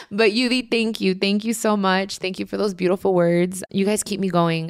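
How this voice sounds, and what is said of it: Emotional, tearful voice. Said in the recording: “I'm feeling a little emotional ... So I'm like crying and laughing.”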